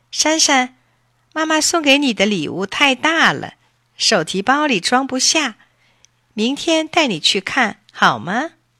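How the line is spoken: Mother smiling. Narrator (Chinese): 妈妈笑了

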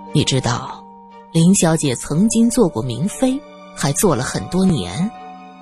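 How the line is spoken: Low voice. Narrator (Chinese): 罗隐……低声说道

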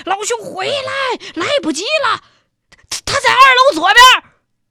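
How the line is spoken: Shouting from behind. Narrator (Chinese): 王营长在那后边喊呢

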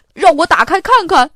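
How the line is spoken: Shouting. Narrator (Chinese): 巴斯特喊着

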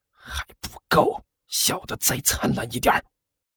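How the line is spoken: Low voice after coughs. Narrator (Chinese): 甘球干咳了两声，压低声音对身边的万晨说道

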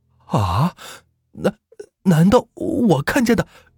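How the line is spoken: Trembling voice. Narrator (Chinese): 他声音有些发抖

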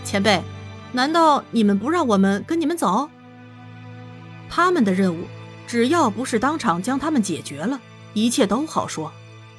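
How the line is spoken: Smiling. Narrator (Chinese): 颜灵犀笑笑

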